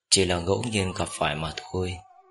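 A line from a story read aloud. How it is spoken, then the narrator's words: Soft laughing. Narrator (Vietnamese): Bạch Ký Liệu khẽ cười nói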